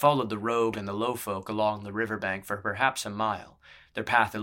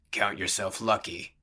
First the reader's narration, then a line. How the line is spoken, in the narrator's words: the brawler grunted